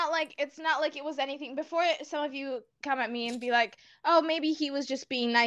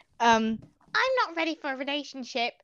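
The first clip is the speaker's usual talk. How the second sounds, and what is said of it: Attempted British accent. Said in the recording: “That was my attempt at a British accent.”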